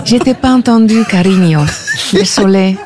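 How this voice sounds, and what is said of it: Put-on foreign accent. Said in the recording (French): “je vais te le dire avec l'accent”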